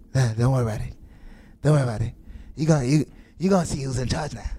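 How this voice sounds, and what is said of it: Imitates another person's voice. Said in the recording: “that's the best impression I heard”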